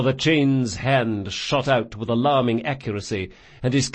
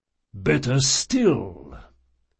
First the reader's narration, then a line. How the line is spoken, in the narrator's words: the priest rumbled